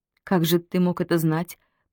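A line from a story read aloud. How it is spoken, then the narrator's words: Muttering. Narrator (Russian): пробормотала Полина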